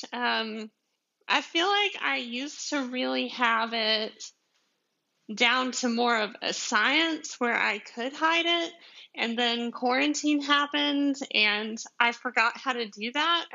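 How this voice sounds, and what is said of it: Deep Southern US (Georgia) accent. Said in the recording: “my southern accent ... I'm from Georgia, like like deep south Georgia ... this is not a pretend accent”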